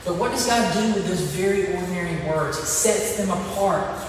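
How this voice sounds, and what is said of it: Southern American drawl. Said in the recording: “I'm speaking very ordinary English with a southern drawl.”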